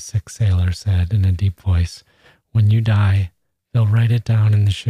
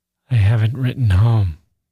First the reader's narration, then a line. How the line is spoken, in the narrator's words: Gusev sighed